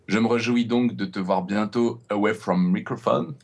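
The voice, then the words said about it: Put-on accent. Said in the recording (French): “J'essaye avec mon super accent.”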